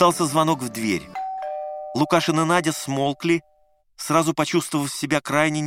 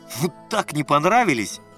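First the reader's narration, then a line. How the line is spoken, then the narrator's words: Loud laughter. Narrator (Russian): Надя хохотала еще громче Лукашина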